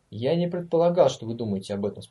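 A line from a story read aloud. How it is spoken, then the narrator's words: Calm. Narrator (Russian): спокойно сказал Конрад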